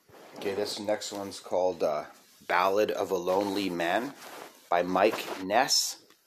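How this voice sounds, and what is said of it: Slightly rough just-woke-up voice. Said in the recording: “my voice is a little off because I'm just waking up”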